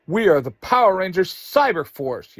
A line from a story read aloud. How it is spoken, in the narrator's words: Yellow Ranger yells